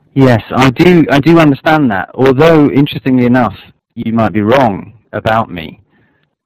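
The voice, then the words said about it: English accent. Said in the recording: “based on your accent and the words that you choose and so on, you know, that you're from England and from a particular class”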